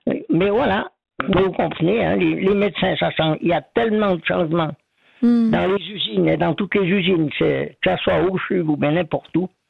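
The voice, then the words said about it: Swiss French Ormonds regional accent. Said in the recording (French): “moi, j'ai l'accent du pays d'en haut, des Ormonds ... Il est très beau, votre accent des Ormonds”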